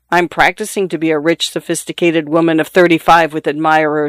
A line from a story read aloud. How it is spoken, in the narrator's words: she said